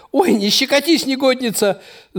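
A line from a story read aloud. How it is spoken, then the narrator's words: Squeal. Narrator (Russian): взвизгнул Подшивалов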